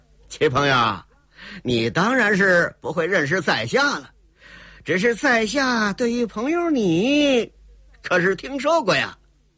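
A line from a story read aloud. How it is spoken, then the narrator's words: Forced chuckle, suppressed annoyance. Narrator (Chinese): 天狗星冯彤心里是老大的不高兴啊，强压着心里那份不自在，嘿嘿一笑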